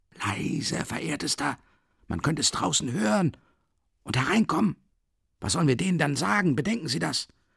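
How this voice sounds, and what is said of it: Frightened whisper. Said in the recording (German): “flüsterte Porfiri Petrowitsch entsetzt”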